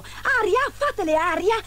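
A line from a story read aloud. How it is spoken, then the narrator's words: Exclaiming. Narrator (Italian): esclamò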